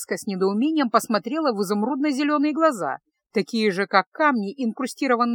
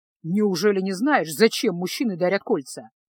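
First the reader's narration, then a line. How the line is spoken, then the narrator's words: Grumbling. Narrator (Russian): проворчал маг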